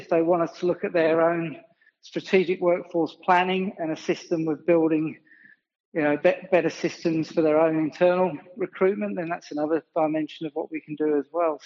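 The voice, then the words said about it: Slight English accent. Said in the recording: “I can detect a little bit of an accent there. It sounds like something from over from England”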